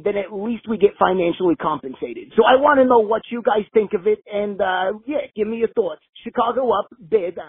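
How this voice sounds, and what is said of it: Stereotypical Chicago accent. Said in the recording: “I don't know if that's your actual voice or if you're just doing this stereotypical Chicago accent”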